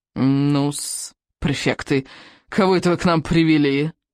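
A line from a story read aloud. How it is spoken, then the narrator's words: Toothless mumble. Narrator (Russian): прошамкал он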